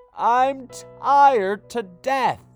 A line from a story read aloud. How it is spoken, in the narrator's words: he wailed